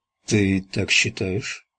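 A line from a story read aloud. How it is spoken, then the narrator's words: Barely audible. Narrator (Russian): произнес Трент так тихо, что она едва расслышала его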